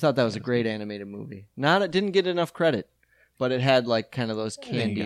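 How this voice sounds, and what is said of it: Usual voice. Nothing is said of it.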